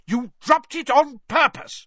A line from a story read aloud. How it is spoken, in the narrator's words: roared Mr